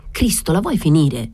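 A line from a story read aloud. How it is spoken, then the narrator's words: Angry outburst. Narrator (Italian): sbottò fuori Deraho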